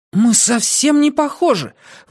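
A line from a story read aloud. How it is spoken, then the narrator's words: Indignant. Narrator (Russian): возмущенно сказал парень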